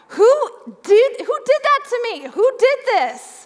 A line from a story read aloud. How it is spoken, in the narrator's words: started to yell